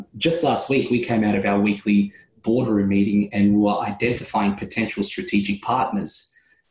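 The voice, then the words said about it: Australian accent. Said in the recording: “I'm all the way down here in Australia. You can probably tell by my accent.”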